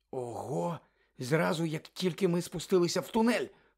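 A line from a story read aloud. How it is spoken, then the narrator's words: Exclamation. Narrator (Ukrainian): вигукнула Герміона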